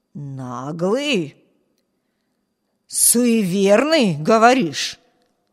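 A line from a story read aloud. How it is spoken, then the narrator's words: Hoarse rasp. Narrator (Russian): Прохрипел голос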